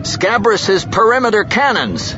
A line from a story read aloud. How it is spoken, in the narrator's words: the man shouted